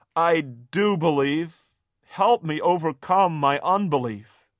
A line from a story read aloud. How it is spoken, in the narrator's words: Immediately the boy's father exclaimed